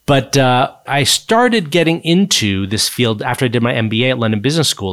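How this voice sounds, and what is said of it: American accent. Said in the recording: “you can probably tell from my accent, I grew up in the U.S. ... I've lived in the U.K. for 23 years. My accent hasn't changed.”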